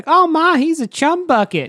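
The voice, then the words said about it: Put-on Southern US accent. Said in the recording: “You had a very southern accent there.”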